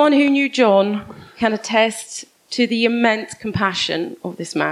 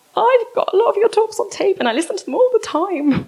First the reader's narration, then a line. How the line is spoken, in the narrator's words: Face to face with this hero, I squeaked in a pathetic voice